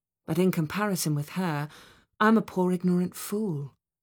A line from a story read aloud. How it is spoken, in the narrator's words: sighed